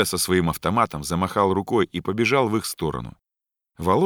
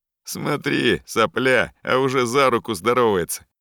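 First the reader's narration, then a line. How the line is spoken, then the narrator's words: Loud mocking voice. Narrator (Russian): Громко и с усмешкой сказал какой-то парень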